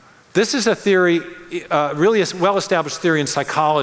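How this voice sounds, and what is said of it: Usual voice. Nothing is said of it.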